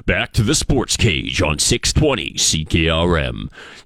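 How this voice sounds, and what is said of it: Big announcer voice impression. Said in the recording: “he's our big voice ... I'm not quite Al Murdoch, but that is my impersonation.”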